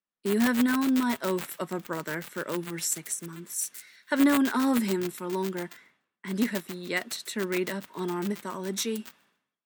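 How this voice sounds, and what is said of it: Posh, contemptuous character voice. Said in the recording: “No one does contempt quite as well as Loki. Tony suspects it's the eyebrows, and the posh accent, too.”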